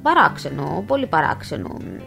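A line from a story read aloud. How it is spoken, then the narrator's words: Muttering doctor. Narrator (Greek): μουρμούρισε ο γιατρός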